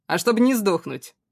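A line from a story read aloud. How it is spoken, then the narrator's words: Snort. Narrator (Russian): он хмыкнул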